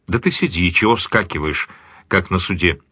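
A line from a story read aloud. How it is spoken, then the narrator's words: Calm official voice. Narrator (Russian): спокойно произнес начальник колонии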